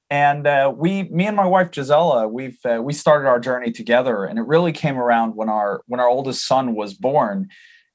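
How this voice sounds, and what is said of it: Swedish speaker with American-tinged accent. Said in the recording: “I apologize for my accent. It's my dad's fault. He's from the U.S. But I'm Swedish.”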